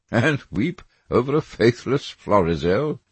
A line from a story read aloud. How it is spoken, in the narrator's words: said Lord Henry, laughing